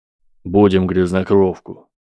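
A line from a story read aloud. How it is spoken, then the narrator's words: Crisp, stern young man. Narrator (Russian): четко ответил страшный парень со строгим голосом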